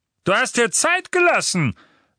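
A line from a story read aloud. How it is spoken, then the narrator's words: Thundering. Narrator (German): donnerte Vernon Dursley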